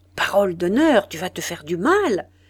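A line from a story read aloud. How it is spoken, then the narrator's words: Exclaim. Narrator (French): s'écria M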